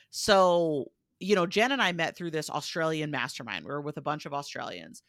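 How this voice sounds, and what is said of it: American accent. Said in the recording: “you could probably tell from my accent where I said I'm American”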